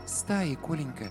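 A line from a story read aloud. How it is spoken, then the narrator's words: Quiet correction, mother. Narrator (Russian): тихо поправила мама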